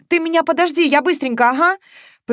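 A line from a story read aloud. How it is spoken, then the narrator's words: Fearful shout. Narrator (Russian): прокричала Маша, страшно боясь, что этот сон сейчас просто развеется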